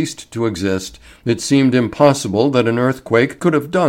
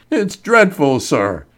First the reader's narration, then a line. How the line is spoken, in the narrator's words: he sobbed